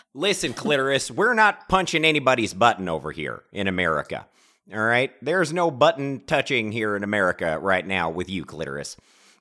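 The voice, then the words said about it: Put-on accent drifting into country. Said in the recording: “I've lost my accent, and it has gone country”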